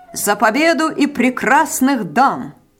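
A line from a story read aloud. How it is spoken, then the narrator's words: Repeated loudly in unison. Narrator (Russian): громко повторили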